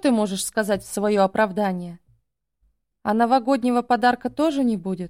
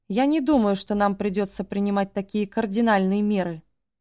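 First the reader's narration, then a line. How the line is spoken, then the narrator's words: Calm sighing tone. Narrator (Russian): вздохнул я, говоря спокойным тоном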